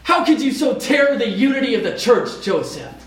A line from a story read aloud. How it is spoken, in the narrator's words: They shout at him